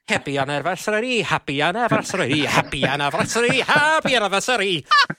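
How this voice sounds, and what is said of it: Sung in a put-on Irish accent. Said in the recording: “in his Irish accent”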